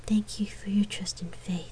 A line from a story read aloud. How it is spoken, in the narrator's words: she stood on her toes and whispered